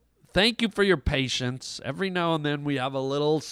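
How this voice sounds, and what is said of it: Usual voice. Nothing is said of it.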